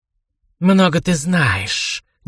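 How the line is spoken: Snake-like hiss. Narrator (Russian): неожиданно змеюй зашипела она

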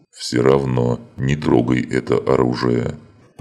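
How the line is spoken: Demon, booming drone. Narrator (Russian): прогудел демон

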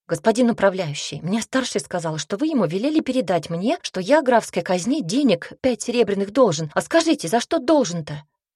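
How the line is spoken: Excited rapid chatter. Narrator (Russian): взволнованно затараторил

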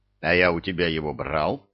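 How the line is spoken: Aggressive growl. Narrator (Russian): агрессивно рыкнул Илья

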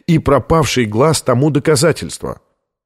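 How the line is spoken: Unintentionally sharp declaration. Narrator (Russian): заявил он более резким тоном, нежели намеревался

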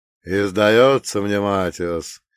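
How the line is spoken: Lazy speech while chewing. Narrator (Russian): лениво жуя, продолжил вурдалак

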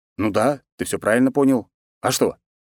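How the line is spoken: Snorting. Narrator (Russian): хмыкнул я

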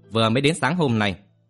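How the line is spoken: Cold. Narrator (Vietnamese): Lăng Hư đạo trưởng lạnh lùng nói

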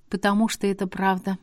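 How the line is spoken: Overly calm. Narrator (Russian): спокойно, даже слишком ответила я

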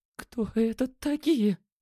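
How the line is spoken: Asked in trembling voice. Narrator (Russian): дрожащим голосом спросила Лена

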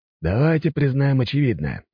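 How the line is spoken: Sighing. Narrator (Russian): вздохнул Максимилиан

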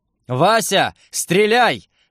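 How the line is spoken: Panicked yell. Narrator (Russian): завопил я

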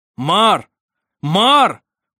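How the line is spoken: Shout. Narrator (Russian): прокричал Сармик

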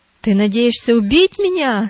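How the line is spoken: Shouting. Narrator (Russian): закричал он

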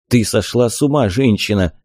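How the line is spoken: Muffled. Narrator (Russian): глухо ответил

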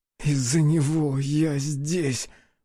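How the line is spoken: Moaning. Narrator (Russian): простонал он

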